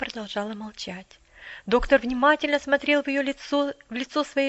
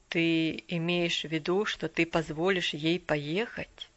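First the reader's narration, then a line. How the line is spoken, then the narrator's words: Quiet, hesitant. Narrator (Russian): Неожиданно для себя доктор Чилтон тихонько начал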